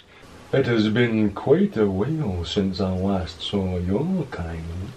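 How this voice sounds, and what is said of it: Very low voice, general Scottish accent. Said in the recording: “I did it very low. I changed the shape of my larynx. I pulled them down real low and then you made a yawning sound. And then relaxed my cheeks and changed the pace a bit, actually. I tried to adopt a general Scottish accent.”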